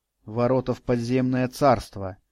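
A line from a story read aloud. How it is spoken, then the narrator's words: Muttering. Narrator (Russian): пробормотал я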